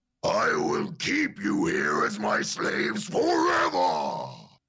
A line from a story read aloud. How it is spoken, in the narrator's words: He roars